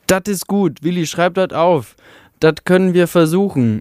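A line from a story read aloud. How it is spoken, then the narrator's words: Calling voice. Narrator (German): rief eine Stimme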